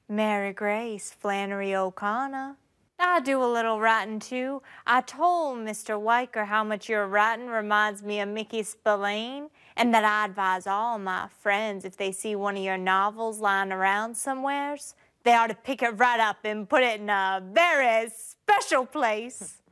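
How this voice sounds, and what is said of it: Georgia Southern accent. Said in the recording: “your strange accent ... I'm from Georgia”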